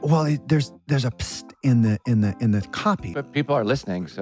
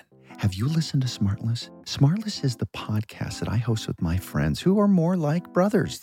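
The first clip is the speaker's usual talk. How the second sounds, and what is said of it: Whispering. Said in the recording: “why are you whispering?”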